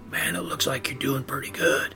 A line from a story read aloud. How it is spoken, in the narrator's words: he'd whisper